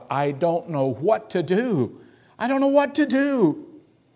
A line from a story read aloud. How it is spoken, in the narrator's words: with tears in his voice, he cried out